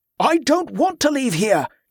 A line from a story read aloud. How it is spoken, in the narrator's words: Jordan shouted, his voice ringing across the dark yard